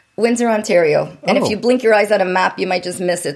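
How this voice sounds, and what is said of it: Canadian accent. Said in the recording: “I'm from Canada, if anyone notices an accent ... The way you pronounce it.”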